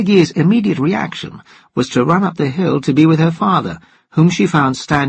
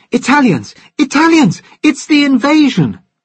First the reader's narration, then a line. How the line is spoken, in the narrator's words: shouting